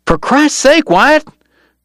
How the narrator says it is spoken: Dog cried

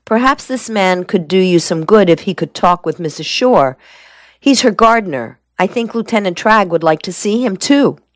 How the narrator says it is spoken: Mason, raising his voice, said

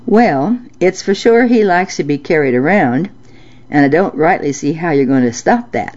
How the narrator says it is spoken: Mama replied

